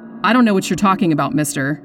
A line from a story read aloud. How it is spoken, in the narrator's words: she said, trying to keep her voice from shaking